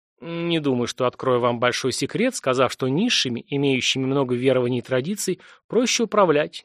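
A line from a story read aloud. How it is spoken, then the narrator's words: Quiet reply. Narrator (Russian): негромко ответил Верховный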